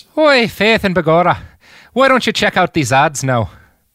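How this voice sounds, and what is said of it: Put-on Irish accent. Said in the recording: “I could do a pretty good Irish accent ... do an Irish. Go to an ad break Irish ... that was so good”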